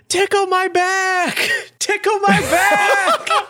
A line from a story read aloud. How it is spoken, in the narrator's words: screams